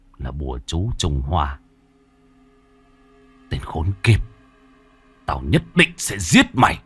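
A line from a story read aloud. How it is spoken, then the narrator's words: Harsh grim voice. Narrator (Vietnamese): Hải gằn giọng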